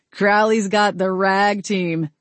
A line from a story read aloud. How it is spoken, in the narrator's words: Garrett chuckled